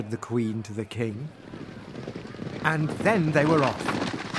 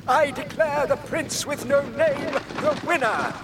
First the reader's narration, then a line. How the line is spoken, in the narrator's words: cried the king